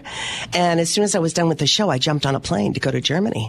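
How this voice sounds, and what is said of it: Voice with a slight cold. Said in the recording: “I have a little bit of the, the cold left over ... we can all hear it ... I have a little cold.”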